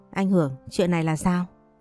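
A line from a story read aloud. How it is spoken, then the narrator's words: Plain. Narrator (Vietnamese): Phong nói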